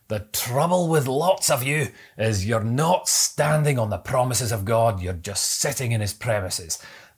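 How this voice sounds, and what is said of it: Put-on Scottish accent. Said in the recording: “I hope that Scottish accent was okay”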